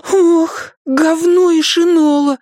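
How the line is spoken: Horrified exclamation. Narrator (Russian): в ужасе воскликнул он

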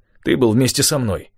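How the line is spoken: Angry reply. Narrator (Russian): сердито отвечал он

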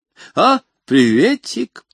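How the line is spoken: Giggling. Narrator (Russian): хихикнула библиотека

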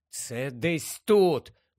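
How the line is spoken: Muttering to himself. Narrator (Ukrainian): бурмотів сам собі Гаррі

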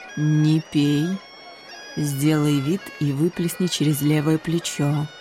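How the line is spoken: Quiet command. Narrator (Russian): Горгулья Таймс тихо приказала

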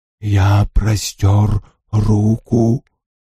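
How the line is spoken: Whispering. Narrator (Russian): зашептал Винкулюс

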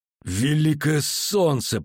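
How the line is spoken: Moaning. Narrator (Russian): простонал Кагыр

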